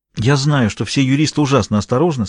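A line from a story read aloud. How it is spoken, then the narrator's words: Plain. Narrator (Russian): сказала Таппенс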